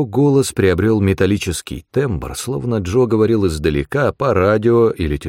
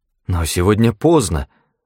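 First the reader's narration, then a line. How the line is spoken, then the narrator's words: Confused mutter. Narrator (Russian): растерянно пробормотала Джулиана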